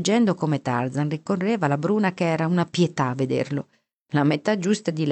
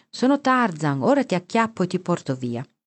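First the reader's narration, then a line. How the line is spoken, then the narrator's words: Shouting. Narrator (Italian): Poldino gridava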